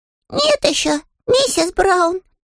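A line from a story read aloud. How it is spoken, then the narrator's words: Young bear, muffled voice. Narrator (Russian): отозвался медвежонок глухим голосом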